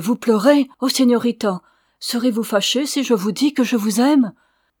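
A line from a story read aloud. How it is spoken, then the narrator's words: Exclaimed. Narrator (French): s'écria-t-il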